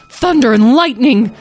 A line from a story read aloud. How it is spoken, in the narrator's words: Tom yelled